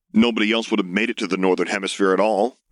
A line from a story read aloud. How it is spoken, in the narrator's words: the voice grumbled